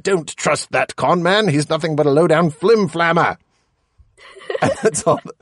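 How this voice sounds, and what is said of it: Put-on comic accent. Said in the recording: “My kids love my accents.”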